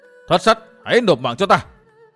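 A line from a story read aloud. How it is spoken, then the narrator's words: Thundering shout. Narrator (Vietnamese): một tiếng quát vang trời nổi lên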